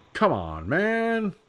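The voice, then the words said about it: Cheesy Joe Biden impression. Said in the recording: “I can make fun of Joe Biden, kind of do a cheesy impression of his voice”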